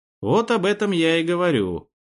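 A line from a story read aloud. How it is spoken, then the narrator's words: Snorting. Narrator (Russian): хмыкнул я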